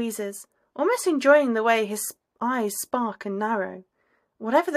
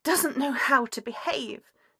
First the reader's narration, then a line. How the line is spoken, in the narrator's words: she hisses, eyes watering